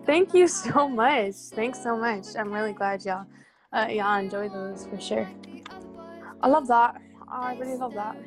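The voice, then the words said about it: Noticeable regional accent. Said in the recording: “we got an accent. I like that. ... It do be coming out.”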